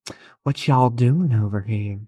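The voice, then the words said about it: Put-on Southern US accent. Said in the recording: “Oh, that's like a southerner. ... Southern ass accent.”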